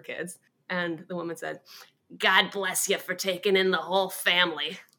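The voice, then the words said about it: Imitated voice of a woman. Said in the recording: “My mom always puts on the voice, so I'll put it on too.”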